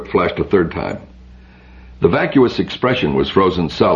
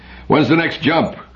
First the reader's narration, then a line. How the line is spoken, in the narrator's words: called out Biren